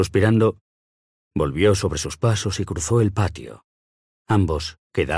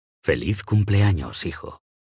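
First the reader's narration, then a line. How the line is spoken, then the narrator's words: Tender whisper. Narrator (Spanish): susurró con ternura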